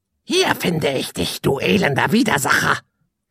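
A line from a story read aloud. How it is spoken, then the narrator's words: Croaking voice from above. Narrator (German): krächzte eine Stimme von oben herab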